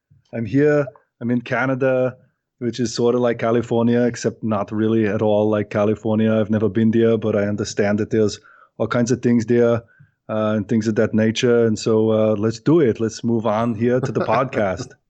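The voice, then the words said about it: Arnold Schwarzenegger impression. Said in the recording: “a live Arnold impersonation”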